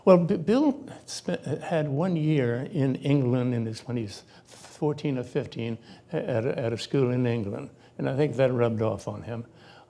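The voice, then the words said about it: Genteel Connecticut upper-class accent. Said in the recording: “your accent for that matter, there's some mix of Spanish and French ... You sound like a very genteel Connecticut gentleman.”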